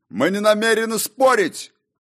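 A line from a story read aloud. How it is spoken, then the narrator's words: Barking shout. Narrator (Russian): гаркнул король рассветов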